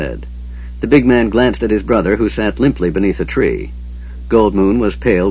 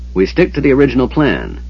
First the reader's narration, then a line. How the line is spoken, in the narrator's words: Tanis said sharply